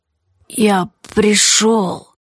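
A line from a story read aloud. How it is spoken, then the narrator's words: Strangled eerie wheeze. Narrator (Russian): просипела она сдавленно и все же очень похожа на голос повесившегося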